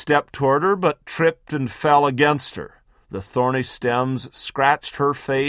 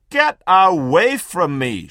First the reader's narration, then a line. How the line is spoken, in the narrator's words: she shouted